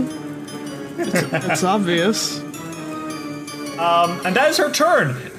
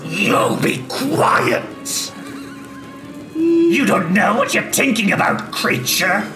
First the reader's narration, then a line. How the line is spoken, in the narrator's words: she snarls and says